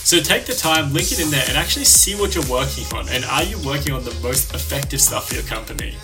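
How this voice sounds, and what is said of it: Fast speech with a foreign accent. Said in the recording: “I know I speak so fast and with an accent”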